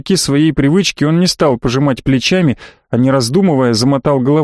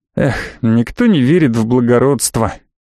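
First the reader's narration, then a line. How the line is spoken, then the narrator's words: Sighing. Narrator (Russian): вздохнул я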